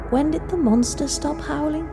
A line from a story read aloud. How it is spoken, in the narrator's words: she said softly, as if scared she would be heard